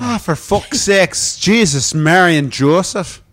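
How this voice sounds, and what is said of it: Put-on Irish accent. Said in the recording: “we should do our accents ... With an Irish accent? ... Irish accent.”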